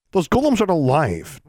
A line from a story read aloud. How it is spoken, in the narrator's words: David snapped